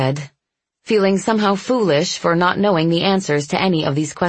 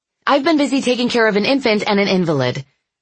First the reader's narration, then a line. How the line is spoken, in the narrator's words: I snapped